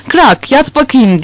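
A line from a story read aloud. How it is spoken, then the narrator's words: Shouted. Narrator (Turkish): diye bağırdı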